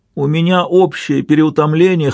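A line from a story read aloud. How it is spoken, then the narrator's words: Whining. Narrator (Russian): хныкал он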